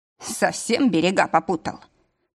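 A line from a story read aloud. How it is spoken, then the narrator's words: Angry voice. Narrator (Russian): спросил у него злым голосом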